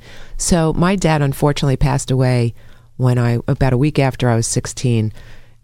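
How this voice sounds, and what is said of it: Raspy, slightly strained voice. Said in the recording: “I'm not losing my voice. I'm just... a little graspy today.”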